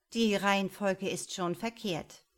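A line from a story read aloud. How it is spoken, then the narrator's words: Annoyed mocking. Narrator (German): spottete Karin, die sich über das Wort altmodisch ärgerte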